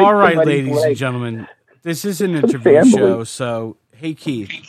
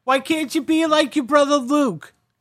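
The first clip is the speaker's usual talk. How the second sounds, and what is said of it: Old Jewish lady character voice. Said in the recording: “old Jewish lady impression ... It's hard to do a Russian accent.”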